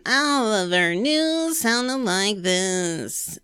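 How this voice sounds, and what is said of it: Bored, tired newscaster voice. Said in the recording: “like she's already bored. Like she just starts the sentence and she's already tired of it ... that's how she would end every sentence”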